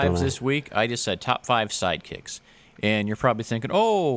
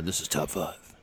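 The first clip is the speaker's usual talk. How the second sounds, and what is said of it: Deep gravelly Batman-like impression. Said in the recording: “Sound like Batman. ... I was just impersonating you ... I sound badass,”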